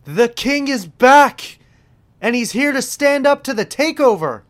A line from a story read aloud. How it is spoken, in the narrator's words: Corey Graves shouts